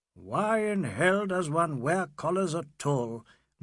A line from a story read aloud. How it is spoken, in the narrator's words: grumbled Fielding as he bent his neck